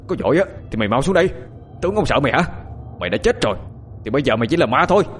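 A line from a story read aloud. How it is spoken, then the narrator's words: Loud defiant shout. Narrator (Vietnamese): Hắn lại quát lớn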